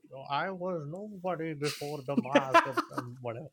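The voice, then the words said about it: Impression of Bane's voice. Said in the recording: “That was the best Bane impression ... every time someone does a Bane impression, I'm like, that is spot on ... the so easiest hard impression. To, like, fuck up. Yet somehow I just fucked it up ... That was pretty good.”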